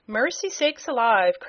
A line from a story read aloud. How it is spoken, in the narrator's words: cried Mrs